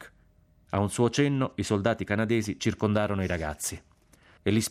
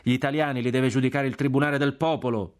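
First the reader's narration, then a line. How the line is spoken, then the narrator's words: Shout from crowd. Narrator (Italian): gridò una voce dalla folla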